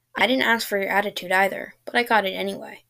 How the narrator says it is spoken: said, chuckling slightly

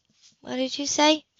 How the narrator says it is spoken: she asked miserably

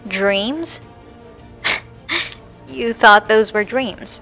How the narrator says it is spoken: She laughed manically

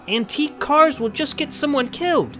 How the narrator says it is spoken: The drum major yelled after them

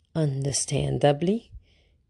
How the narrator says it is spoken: Grandmère murmured

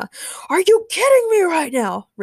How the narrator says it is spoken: Ray shouted angrily

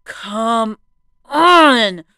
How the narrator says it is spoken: I groaned in frustration

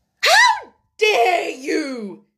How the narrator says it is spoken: she cried out

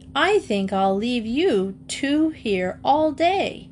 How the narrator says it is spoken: she exclaimed

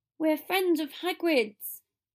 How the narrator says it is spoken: Potter shouted

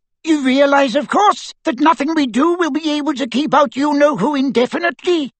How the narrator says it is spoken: squeaked Flitwick

